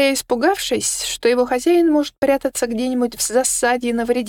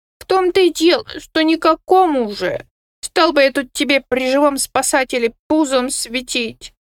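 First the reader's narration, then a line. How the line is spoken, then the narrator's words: Gloomy explanation. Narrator (Russian): мрачно пояснил Кусимар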